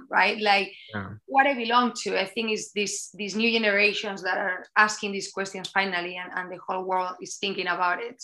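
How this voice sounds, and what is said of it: Spanish accent. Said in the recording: “I'm born in Spain. That's my accent.”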